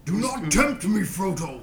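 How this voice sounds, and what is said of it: Imitates a movie wizard character. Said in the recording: “you do a Gandalf impression? ... Gandalf, Ian McKellen?”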